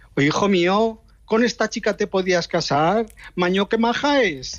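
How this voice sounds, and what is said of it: Put-on Aragonese Spanish accent. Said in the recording (Spanish): “con acento aragonés”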